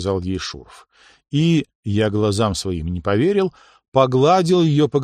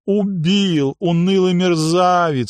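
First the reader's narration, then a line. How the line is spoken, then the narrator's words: Renewed wail. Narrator (Russian): с новыми силами взвыла принцесса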